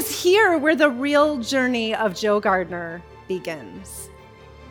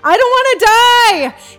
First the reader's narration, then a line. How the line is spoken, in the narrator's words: The soul of Joe screaming